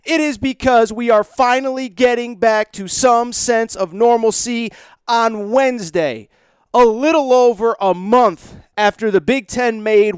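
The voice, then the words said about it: Excited voice, cracking. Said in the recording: “if I seem extra fired up, my voice is cracking”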